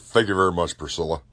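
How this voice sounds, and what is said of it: Poor Elvis impression. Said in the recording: “my worst Elvis impression”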